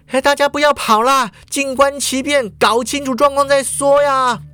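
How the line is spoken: Shouting into microphone. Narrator (Chinese): 叶枫就抓起麦克风大叫啦

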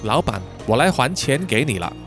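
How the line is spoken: Smiling. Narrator (Chinese): 丽亚只是笑着说

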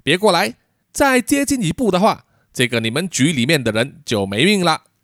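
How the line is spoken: Loud shouting. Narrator (Chinese): 他就扬声对着杨峰队长大声的喊叫说

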